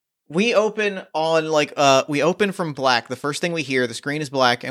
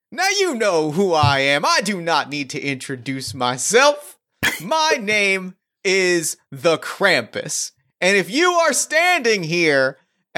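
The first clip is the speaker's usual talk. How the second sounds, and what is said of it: Distinctly Southern accent character voice. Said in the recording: “in a distinctly Southern accent”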